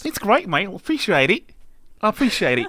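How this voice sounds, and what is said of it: Put-on Australian accent, questionable. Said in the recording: “What accent is that? ... It's an Australian accent. ... No, it's not.”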